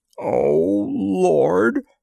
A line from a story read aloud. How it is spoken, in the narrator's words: groaned Charlie